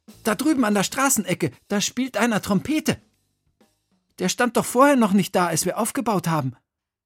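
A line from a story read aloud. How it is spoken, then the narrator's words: Calling out. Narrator (German): rief Emil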